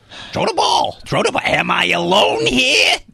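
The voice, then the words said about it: Imitates another person's voice. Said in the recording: “Gilbert Gottfried is the voice of so many animals and... animated characters ... He was a dog's voice.”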